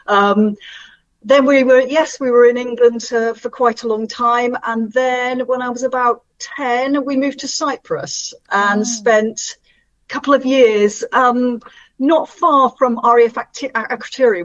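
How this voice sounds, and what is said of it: Mixed British regional accent. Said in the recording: “I've got quite a strange accent now, really. It's a bit of a hybrid from everywhere I've ever been.”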